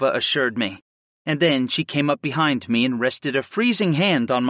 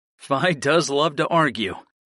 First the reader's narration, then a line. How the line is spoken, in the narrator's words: laughed lightly